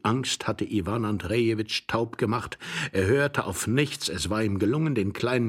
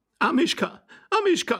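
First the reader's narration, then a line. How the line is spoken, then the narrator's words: Woman calling out. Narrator (German): rief die Dame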